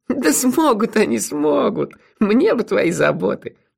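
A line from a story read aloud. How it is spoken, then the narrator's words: Laughing. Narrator (Russian): рассмеялась леди Сатофа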